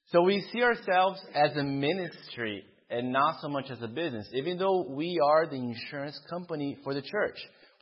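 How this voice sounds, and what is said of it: Slight Brazilian accent. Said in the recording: “if you hear a little bit of an accent in my speaking, it comes from Brazil”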